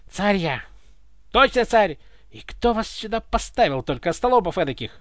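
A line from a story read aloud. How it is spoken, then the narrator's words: Indignant grumbling. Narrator (Russian): возмущенно бурчал Иван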